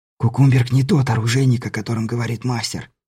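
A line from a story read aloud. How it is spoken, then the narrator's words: Whisper. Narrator (Russian): шепнул Беляев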